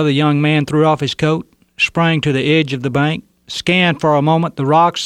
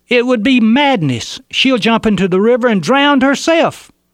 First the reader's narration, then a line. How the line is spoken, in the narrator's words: One of those holding her yelled